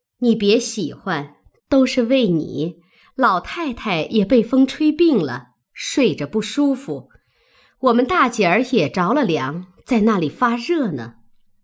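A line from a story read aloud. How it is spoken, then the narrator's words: Laughing. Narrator (Chinese): 凤姐儿笑道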